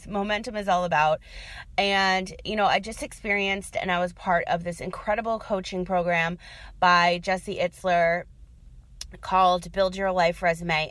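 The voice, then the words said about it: Voice giving out, strained. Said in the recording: “now I'm losing my voice.”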